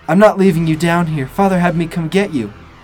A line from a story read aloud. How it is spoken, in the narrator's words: Angela's voice suddenly shouting